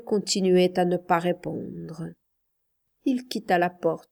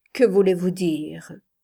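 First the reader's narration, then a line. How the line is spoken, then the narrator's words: Cold reply. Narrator (French): répliqua-t-elle froidement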